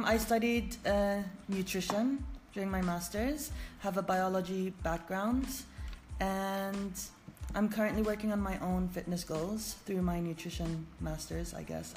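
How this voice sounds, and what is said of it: American accent, slightly Arab-tinged. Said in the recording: “I obviously do not have a British accent ... No, you totally ended up with an American accent ... some would say it's an American Arab accent”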